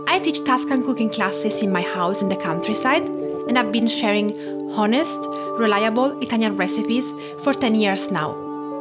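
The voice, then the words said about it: Italian accent. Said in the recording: “Cooking with an Italian Accent”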